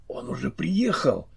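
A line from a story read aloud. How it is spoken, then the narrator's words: Lowered to whisper. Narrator (Russian): Чарли понизил голос до шепота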